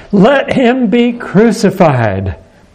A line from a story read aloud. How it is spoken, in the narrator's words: the Jews cried out to Pilate